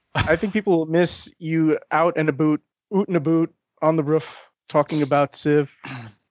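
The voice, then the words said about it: Poor attempt at Canadian accent. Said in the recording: “that's my failed attempt at a Canadian accent.”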